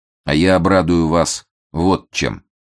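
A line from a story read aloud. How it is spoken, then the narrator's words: Even, steady voice. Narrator (Russian): все тем же ровным голосом продолжает Фондорин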